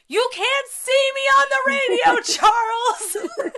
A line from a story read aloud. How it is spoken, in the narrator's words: I had to yell back at the TV